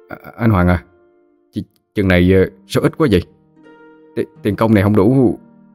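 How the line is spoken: Surprised, shaky question. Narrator (Vietnamese): kẻ hơi ngạc nhiên run run giọng hỏi

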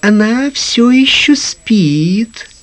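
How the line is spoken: Little girl's singsong voice. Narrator (Russian): ответила маленькая принцесса своим певучим голоском

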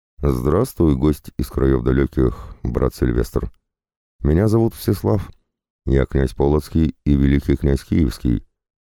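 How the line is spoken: Calm sorcerer. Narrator (Russian): начал чародей спокойно

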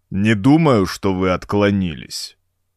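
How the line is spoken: Deep rumbling voice. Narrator (Russian): прогрохотал своим подземным голосом Уджук

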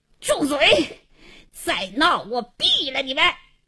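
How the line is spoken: Angry hoarse shout. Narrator (Chinese): 王经理气得嘶哑着嗓子喝道

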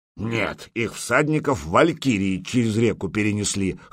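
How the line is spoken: Wry snort. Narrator (Russian): хмыкнул Гудмунд

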